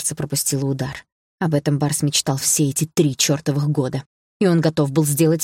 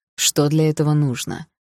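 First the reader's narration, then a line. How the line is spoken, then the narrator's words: Calm, hiding nervousness. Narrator (Russian): Несмотря на внутреннее волнение, спокойно спросил он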